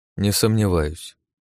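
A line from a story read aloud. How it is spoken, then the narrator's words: Grumbling mutter. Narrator (Russian): буркнул Орлов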